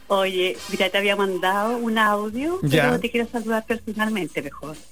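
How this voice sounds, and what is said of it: Slow, serious announcer-like voice. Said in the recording (Spanish): “Esa voz pausada, seria, voz de locutora.”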